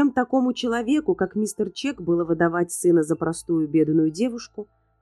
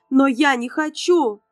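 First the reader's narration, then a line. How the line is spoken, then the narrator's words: Shouting. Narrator (Russian): кричала Натали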